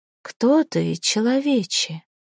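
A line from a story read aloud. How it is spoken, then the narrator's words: Quiet question. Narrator (Russian): спросила она негромко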